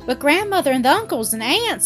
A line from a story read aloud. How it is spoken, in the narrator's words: exclaimed Dorothy, turning pale at the thought of their angry astonishment